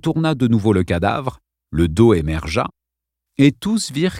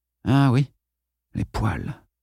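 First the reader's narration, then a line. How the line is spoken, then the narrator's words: Mumbled. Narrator (French): marmonna Duane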